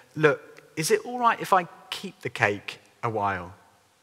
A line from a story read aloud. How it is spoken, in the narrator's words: slowly and softly said